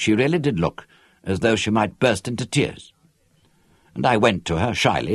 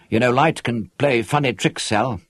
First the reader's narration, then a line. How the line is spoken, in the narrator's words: I said